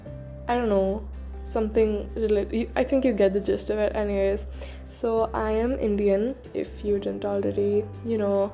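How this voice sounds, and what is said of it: Indian accent. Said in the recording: “if you didn't already get that from my accent or the way that I speak. Yes, I am Indian.”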